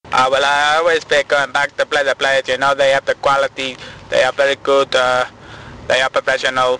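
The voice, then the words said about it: Put-on Spanish accent. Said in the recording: “trying to do a foreign accent, Spanish in this case, is tray amusing”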